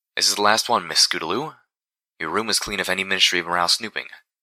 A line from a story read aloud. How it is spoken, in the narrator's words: the unicorn said